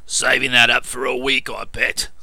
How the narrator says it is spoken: growled Piggott

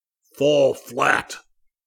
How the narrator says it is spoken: Zircon bellowed

